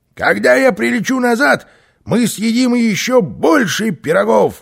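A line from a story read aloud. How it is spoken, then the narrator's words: Shouted. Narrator (Russian): крикнул Карлсон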